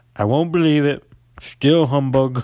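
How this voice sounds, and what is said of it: Imitates another person's voice. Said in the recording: “he sounds like Donald Trump ... my Donald Trump impression”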